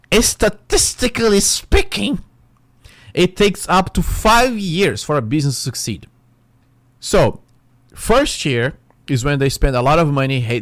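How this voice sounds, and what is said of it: Speaks English with an accent. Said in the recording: “Even though I have my accent, I live here in United States”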